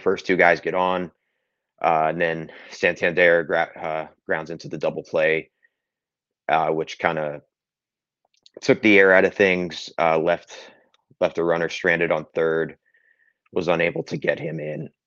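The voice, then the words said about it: Strained, struggling voice. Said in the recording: “my voice is struggling already ... for the sake of my voice box”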